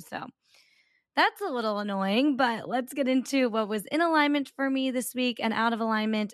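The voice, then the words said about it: Raspy, strained voice. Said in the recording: “my voice is very raspy because I went out this weekend ... I just lose my voice from, like, talking over the loud music”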